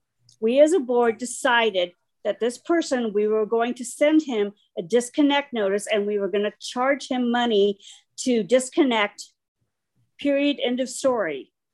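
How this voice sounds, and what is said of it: Upset, raised voice. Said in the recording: “I'm getting very upset and I shouldn't be upset, but I am very upset and I apologize for my raising my voice.”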